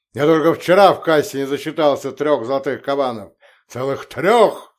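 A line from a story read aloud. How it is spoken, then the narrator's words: Roaring merchant. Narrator (Russian): взревел купец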